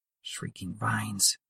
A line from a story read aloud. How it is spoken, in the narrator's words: she muttered, realizing too late that the vase on the desk wasn't merely decorative